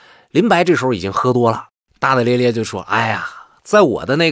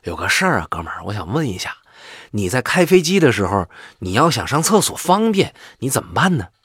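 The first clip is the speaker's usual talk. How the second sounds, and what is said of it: Quiet, hushed voice. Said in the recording (Chinese): “小声地”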